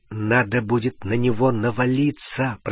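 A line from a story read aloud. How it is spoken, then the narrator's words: Whisper in ear. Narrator (Russian): прошептал Гарри на ухо Рону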